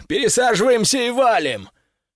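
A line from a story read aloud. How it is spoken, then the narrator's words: Someone shouting. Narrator (Russian): Кто-то закричал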